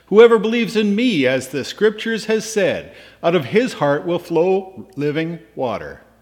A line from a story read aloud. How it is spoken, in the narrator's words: cries out in a loud voice